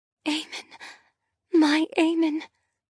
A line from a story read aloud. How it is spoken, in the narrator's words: I whisper